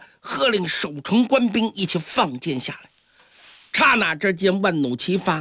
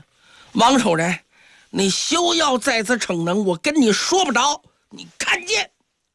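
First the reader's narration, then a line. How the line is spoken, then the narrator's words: Angry and humiliated. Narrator (Chinese): 杨璋这时候也恼羞成怒啊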